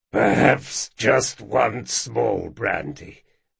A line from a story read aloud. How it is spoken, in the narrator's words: rasped Jean, barely moving his lips